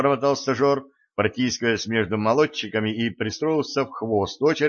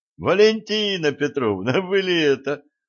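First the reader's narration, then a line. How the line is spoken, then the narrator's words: Joyful, deliberately loud. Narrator (Russian): радостно спросил он женщину, нарочито громким голосом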